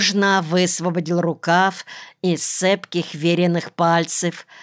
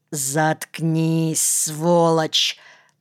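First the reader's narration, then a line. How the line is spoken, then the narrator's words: Through gritted teeth. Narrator (Russian): процедил Никольский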